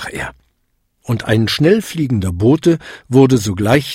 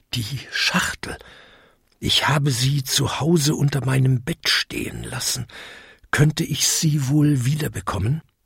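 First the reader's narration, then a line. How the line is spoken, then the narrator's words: Whisper in ear. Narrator (German): flüsterte ihm ins Ohr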